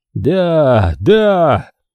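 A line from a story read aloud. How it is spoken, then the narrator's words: Shouting. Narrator (Russian): закричал Йоган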